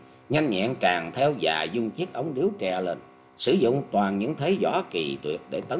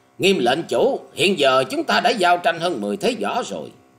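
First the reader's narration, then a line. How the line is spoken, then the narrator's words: Loud. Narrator (Vietnamese): các dương bèn to tiếng nói rằng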